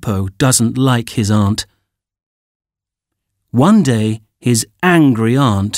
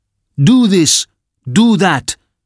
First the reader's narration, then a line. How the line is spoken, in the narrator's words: his aunt shouts at him